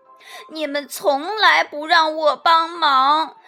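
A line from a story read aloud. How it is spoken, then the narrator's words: Sobbing. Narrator (Chinese): 鸭子哭哭啼啼地说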